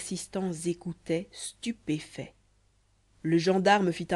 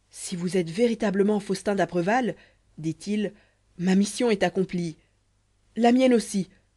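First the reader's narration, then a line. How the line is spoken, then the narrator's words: Knife-grinder exclaiming. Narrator (French): s'écria le rémouleur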